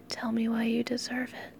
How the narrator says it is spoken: I whispered

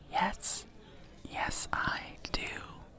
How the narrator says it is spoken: I just whisper back

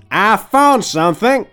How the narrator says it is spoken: Calamity yelled out

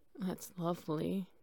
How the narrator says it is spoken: he hoarsely said

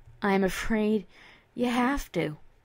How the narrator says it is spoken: Cheval replied with a sigh

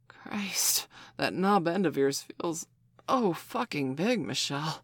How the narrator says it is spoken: Steph gasped

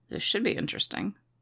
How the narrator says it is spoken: he muttered

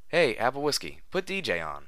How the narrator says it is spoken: One of the bucks from down the counter called out

